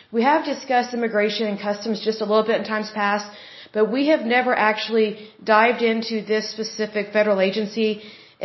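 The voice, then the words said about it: Hoarse, recovering voice. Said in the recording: “Sorry, I'm still losing my voice or getting my voice back over time.”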